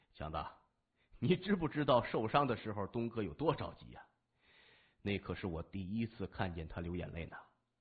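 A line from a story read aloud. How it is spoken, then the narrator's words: Joking, teasing. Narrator (Chinese): 三眼和高强说笑说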